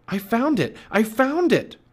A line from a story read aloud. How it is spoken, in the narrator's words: cried Jack